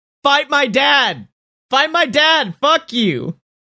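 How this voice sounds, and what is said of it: Screaming. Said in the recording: “I'm screaming that.”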